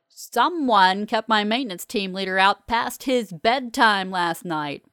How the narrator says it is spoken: Polly roars in my ear

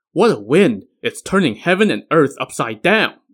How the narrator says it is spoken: the king exclaimed

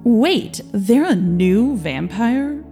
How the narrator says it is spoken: Victor groaned

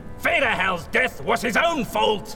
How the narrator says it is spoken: Von Baumeister roared at her

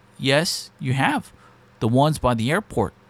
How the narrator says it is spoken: He responded calmly

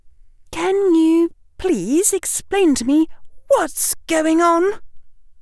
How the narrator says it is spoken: Hermione said in a weak voice

